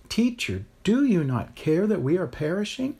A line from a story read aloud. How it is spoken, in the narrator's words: Beside themselves, cried